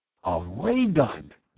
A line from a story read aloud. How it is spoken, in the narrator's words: Bud gasped